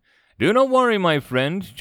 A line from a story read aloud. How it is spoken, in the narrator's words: chuckled the president of Chad